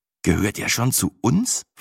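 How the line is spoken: Slightly anxious question. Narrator (German): fragte ich fast ein wenig ängstlich

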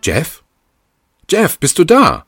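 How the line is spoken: Calling down the hallway. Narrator (German): rief sie durch den Flur

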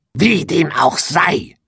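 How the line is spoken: Witch hisses. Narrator (German): fauchte die Hexe

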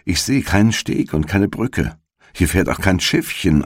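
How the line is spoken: Plain. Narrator (German): antwortete Gretel

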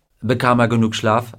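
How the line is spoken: Plain question. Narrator (German): fragte Gardner

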